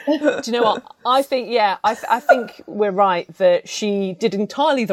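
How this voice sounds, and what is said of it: Usual voice. Nothing is said of it.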